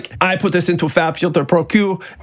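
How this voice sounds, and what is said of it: Terrible put-on French accent. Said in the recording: “I'm gonna do a terrible French accent right now.”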